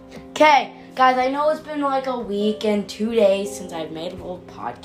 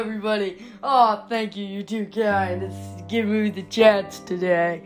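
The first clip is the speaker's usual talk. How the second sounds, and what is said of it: Uncertain celebrity impression, maybe Billy Crystal. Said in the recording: “I don't even know who I was trying to do an impression of. ... Does Billy Crystal sound like that? Because I guess I'm Billy Crystal if he does.”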